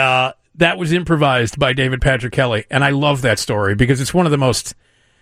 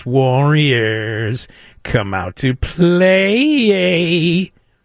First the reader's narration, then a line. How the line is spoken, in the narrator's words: he drawled